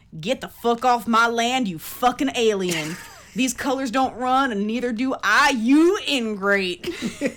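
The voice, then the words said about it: Thick put-on Southern accent. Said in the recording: “In a thick-ass southern accent,”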